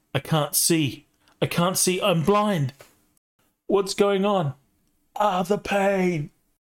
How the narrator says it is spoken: He starts shouting

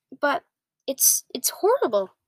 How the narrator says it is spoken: Sophie cried

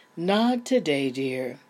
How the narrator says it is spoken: her mother sighed

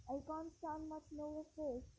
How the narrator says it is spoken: Ron muttered, his teeth chattering

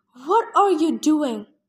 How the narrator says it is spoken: yelled

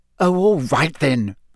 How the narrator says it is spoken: Hermione snapped

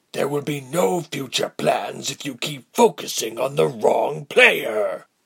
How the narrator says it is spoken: Althod barked

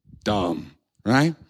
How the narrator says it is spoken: Crowd murmured

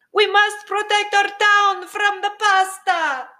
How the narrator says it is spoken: shouted the mayor

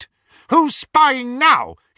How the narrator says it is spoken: he shouted

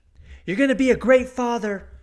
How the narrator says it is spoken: she shouts back

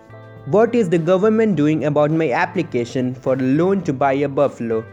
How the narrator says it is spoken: Sonba asked

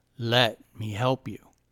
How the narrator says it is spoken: said the old man in a clear, deep voice

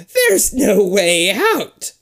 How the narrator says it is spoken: she cackles

